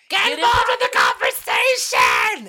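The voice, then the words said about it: Lily Tomlin impression. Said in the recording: “Such a beautiful impersonation. Amazing. It's uncanny.”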